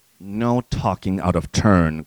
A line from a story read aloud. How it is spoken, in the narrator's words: growled Jane